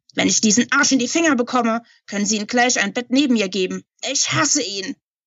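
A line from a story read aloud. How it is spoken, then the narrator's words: Bellowing into microphone. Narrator (German): Sie drückte das Mikrofon und brüllte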